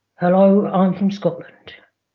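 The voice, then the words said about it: Put-on Scottish accent. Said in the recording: “Can you do a Scottish accent ... Absolutely perfect. Flawless, in fact.”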